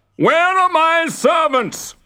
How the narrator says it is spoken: His red face went purple, and he shouted even louder than usual

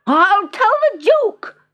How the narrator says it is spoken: she shouted

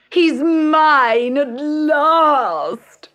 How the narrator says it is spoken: cried Bertha

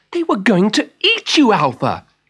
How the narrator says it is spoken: she cried

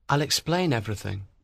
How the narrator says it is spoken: he said softly

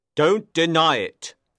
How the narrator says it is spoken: he said sternly

